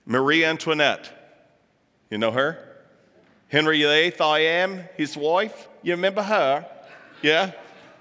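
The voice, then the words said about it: Poor put-on British accent. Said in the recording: “I've got a horrible British accent.”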